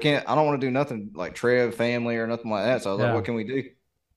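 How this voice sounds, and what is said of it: Southern American accent. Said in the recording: “the number one comment anybody ever makes is something about my accent or me being Southern”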